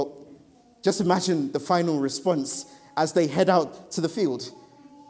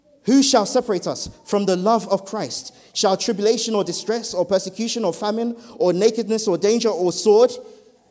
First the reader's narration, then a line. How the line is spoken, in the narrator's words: Paul shouts